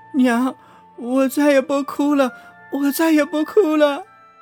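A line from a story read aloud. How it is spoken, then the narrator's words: Crying child, pitiful. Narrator (Chinese): 五岁的儿子哭着，楚楚的说道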